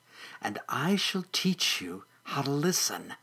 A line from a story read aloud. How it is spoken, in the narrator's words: whispered